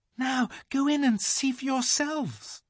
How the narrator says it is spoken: cried

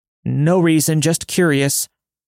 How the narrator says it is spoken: I yelled out

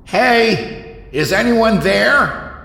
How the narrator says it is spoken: He yelled

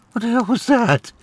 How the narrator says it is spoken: Julia asked, tears choking her vision

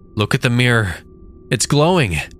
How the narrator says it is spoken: Amelia cried out

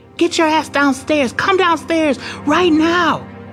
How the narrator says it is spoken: he was screaming

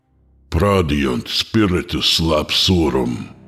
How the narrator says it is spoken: I said, the temple booming with my echoing voice

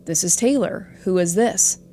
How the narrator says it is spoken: the person said

